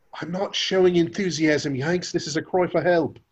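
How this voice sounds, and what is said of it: Weak put-on English accent. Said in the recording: “my English accent needs work”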